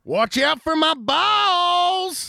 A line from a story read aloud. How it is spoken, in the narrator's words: Hill screamed